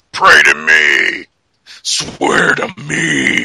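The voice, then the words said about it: Hard-to-understand Batman impression voice. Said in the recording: “my impersonation of Christian Bale as Batman ... I can't understand you”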